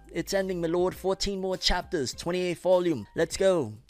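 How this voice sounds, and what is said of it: Put-on accent. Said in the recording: “Don't know why I put on this accent, my lord. You probably hate it.”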